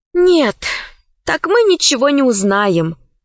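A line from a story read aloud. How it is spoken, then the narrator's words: Sighing. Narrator (Russian): вздохнула Алиса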